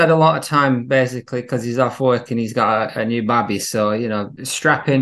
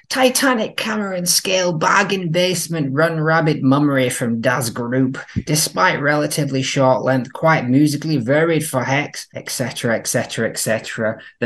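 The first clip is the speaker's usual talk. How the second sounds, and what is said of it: Imitates another person's voice. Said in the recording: “I'll do the voice.”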